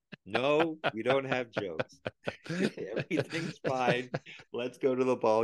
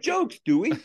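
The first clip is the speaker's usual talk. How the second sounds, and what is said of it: Philadelphia accent, convincingly done. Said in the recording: “Your Philly accent is spot on.”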